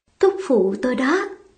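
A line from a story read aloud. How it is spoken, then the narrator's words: Soft. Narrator (Vietnamese): Chiếp lằn khẽ bảo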